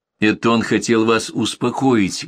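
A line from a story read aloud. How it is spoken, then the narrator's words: Plain. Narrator (Russian): говорит Лиза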